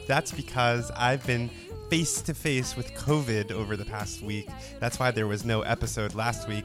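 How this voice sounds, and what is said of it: Stuffy, congested voice. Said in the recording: “if I sound a little stuffed up”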